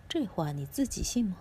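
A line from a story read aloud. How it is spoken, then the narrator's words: Sneering cold laugh. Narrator (Chinese): 兰索冷笑一声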